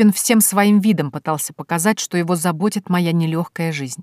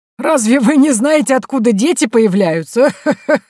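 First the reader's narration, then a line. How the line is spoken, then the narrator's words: Hoarse loud laughter. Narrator (Russian): Я хрипло и громко захохотала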